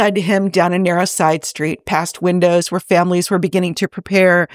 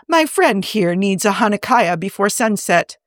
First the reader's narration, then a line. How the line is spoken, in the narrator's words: Edith called out warmly